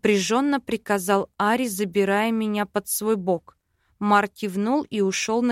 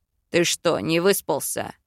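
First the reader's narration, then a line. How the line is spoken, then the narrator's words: Growled. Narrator (Russian): рыкнул Йоран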